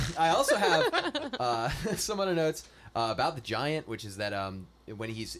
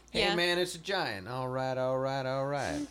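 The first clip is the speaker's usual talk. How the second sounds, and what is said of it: Matthew McConaughey impression, Texan drawl. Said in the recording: “he owes Matthew McConaughey royalties for his accent”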